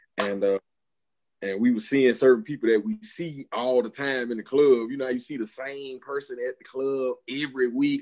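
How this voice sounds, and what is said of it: Strong Southern US accent. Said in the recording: “I hear a southern accent too ... I hear yours clearly ... I'm super country”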